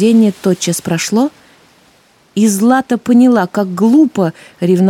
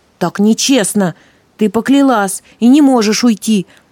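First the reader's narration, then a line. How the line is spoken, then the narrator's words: Indignant young man's shout. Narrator (Russian): возмущенно крикнул юноша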